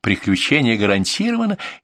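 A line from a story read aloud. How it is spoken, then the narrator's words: Laughing. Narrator (Russian): засмеялся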